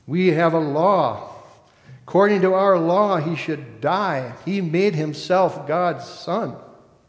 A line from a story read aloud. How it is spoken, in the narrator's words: the chief priests and Jewish officers … they yell